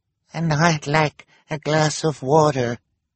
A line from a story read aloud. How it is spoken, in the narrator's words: the woman said in a weak voice